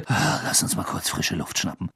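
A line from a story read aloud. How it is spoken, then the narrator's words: Murmured. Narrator (German): murmelte Ron Harry zu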